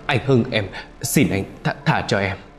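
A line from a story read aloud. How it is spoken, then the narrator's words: Trembling, sobbing, stammering plea. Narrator (Vietnamese): Khánh run rẩy vừa khóc vừa lắp bắp cầu xin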